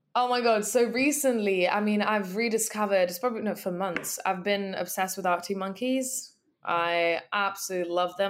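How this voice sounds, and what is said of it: Hoarse, strained voice. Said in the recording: “why my voice is currently fucked, because I was in the crowd screaming so loud every song”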